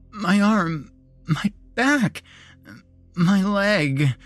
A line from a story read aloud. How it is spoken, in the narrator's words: she sobbed